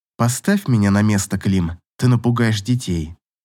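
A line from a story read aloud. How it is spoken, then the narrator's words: Calm request. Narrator (Russian): спокойно попросила Катя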